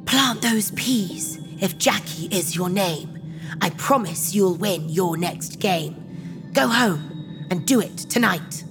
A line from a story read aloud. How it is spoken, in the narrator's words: A little old lady whispered aloud